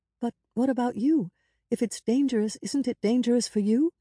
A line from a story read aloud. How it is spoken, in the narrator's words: she pleaded in a whisper so she wouldn't wake Hoda and the child